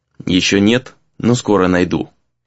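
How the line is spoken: Quiet, calm reply. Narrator (Russian): ответил он также тихо, сразу успокоившись

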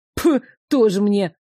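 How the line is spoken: Scornful snort. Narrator (Russian): фыркнул Иван

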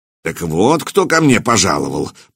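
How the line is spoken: Grumble. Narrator (Russian): проворчал он

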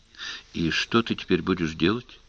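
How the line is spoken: Quiet question. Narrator (Russian): тихо спросила

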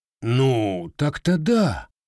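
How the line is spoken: Confused seller. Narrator (Russian): растерянно кивнул продавец

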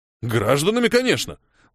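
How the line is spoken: Exclaimed. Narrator (Russian): воскликнул Ухил

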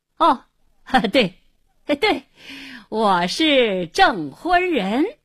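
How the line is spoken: Forced hearty laugh, repeated. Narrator (Chinese): 胡经理要想发作，一转念，故意哈哈大笑，连声说

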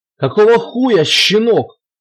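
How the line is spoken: Howling. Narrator (Russian): взвыл Туманов

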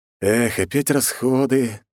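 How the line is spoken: Heavy sigh. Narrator (Russian): тяжело выдохнул я

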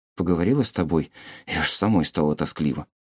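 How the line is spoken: Mumbling. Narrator (Russian): пробормотала Томи

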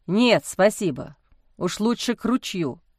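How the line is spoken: Snort. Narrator (Russian): хмыкнул Александр

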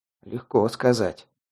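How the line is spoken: Muttered. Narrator (Russian): пробормотал я

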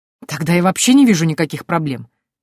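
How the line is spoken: King exclaiming. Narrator (Russian): воскликнул король

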